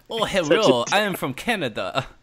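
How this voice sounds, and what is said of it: Put-on proper accent. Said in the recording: “That's a proper accent, right?”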